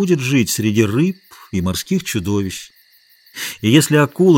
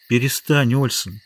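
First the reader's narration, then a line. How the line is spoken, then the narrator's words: Sad. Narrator (Russian): печально сказала Гутьерре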